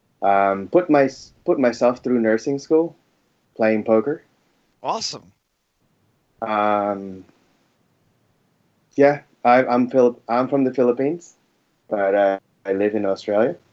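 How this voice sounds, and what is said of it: American accent with slight Australian tilt. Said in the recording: “Your accent does not sound either Filipino or Australian ... I can detect this slight Aussie tilt every now and then, but clearly the primary accent there is definitely American.”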